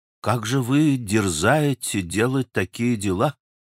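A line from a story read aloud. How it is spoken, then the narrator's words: Sudden solemn question. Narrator (Russian): спросил вдруг монах, внушительно и торжественно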